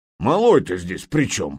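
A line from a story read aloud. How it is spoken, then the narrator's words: Grumbling. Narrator (Russian): проворчал Нурман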